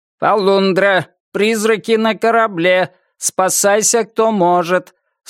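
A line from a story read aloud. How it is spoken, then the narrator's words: Repeated, metallic robot voice. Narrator (Russian): Снова и снова повторял робот-капитан металлическим голосом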